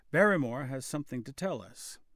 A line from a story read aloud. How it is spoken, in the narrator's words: he said